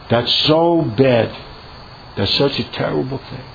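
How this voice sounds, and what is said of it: Sarcastic delivery. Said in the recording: “saying it sarcastically”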